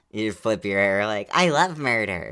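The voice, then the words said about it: Imitates another person's voice. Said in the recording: “That's a really good me impression.”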